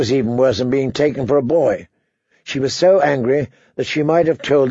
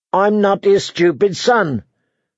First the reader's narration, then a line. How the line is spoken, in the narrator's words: said Arya furiously